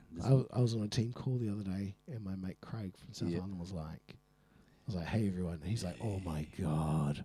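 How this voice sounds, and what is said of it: Funny-sounding, sore-throat voice. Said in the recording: “you might notice my voice is a bit funny ... What's been going down their throat of yours? ... If it wasn't so painful”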